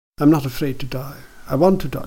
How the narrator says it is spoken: she replied

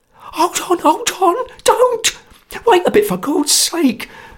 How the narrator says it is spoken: cried Sotcher in a sweat of terror

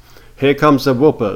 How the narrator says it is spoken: they shouted

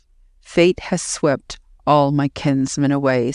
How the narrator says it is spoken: said he

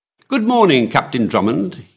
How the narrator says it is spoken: he cried cheerfully

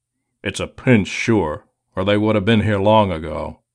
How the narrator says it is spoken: he grumbled

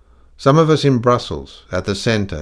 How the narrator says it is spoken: he said hastily

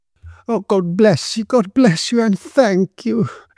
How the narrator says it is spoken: she exclaimed

